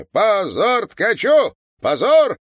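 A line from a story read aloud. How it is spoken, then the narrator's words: Angry shouting. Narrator (Russian): кричал Иван Петрович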